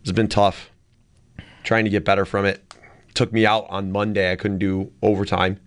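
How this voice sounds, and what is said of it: Hoarse voice from a cold. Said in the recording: “first fall cold ... I'm sounding hoarse.”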